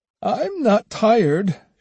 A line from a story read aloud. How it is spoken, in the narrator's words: she replied with a little laugh